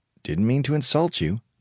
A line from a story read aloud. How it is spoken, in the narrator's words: he muttered